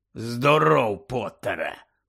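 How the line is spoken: Growled by professor. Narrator (Ukrainian): прогарчав професор

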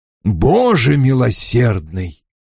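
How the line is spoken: Exclamation. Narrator (Russian): воскликнул мистер Хонифуд

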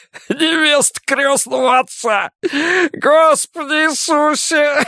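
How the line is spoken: Laughing loudly. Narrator (Russian): снова расхохотался

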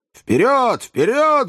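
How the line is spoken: Elderly man yelling. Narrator (Russian): завопил пожилой джентльмен

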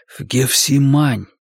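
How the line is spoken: Whisper in ear. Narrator (Russian): прошептал на ухо таксисту

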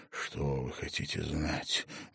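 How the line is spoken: Hissing like gas flame. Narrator (Russian): голос шипел, как газовое пламя

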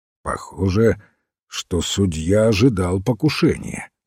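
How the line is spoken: Plain. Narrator (Russian): сказал сыщик

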